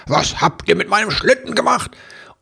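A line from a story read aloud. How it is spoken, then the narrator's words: Stunned shout. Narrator (German): fassungslos dann schrie er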